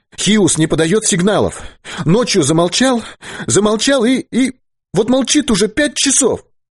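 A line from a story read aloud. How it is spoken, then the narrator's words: Shouted too loudly. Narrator (Russian): Вера, бледная, с растрепанными волосами, и слишком громко, как ему показалось, выкрикнула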